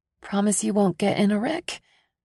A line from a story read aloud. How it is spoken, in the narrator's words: He offers me a shaky laugh